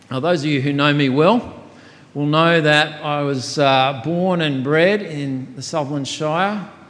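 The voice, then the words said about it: Australian accent. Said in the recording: “grew up there, got my accent there ... Oh, you're from that country down under ... the accent gives it away”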